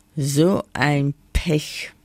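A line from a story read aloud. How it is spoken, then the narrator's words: Plain male. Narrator (German): sagte ein Mann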